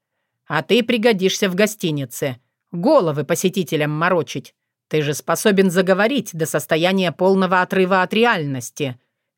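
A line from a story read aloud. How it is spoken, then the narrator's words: Snort. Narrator (Russian): хмыкнул Соколовский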